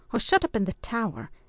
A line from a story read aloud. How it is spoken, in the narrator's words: exclaimed the Earl